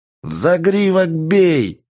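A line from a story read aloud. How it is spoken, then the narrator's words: Yelled. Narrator (Russian): заорал Бумеранг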